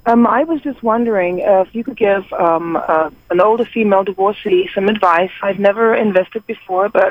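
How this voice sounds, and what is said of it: Slight British accent. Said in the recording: “you have that British accent, that slight British accent”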